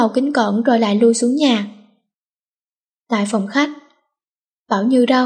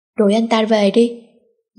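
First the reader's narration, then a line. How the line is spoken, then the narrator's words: Cold. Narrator (Vietnamese): Lạnh lùng buông ra câu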